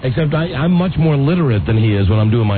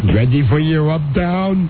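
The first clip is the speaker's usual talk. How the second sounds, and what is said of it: Imitates another person's voice. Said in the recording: “we'd have to talk like him ... my impression of him”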